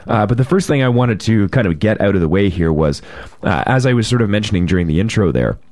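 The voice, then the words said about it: Hoarse, crackling rough voice. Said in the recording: “my crackling voice ... my voice is a little rough today”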